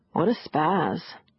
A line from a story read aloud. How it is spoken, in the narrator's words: Gina said lazily